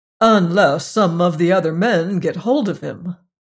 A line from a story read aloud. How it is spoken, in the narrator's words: finished cheerfully